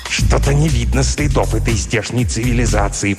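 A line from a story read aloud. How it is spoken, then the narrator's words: Hissing. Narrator (Russian): прошипел, наконец, Плагдрк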